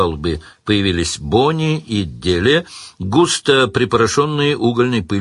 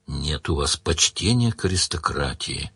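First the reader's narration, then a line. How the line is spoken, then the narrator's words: Sad. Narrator (Russian): грустно сказал Сварог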